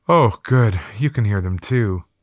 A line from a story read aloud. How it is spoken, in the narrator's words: She then said with a sigh of relief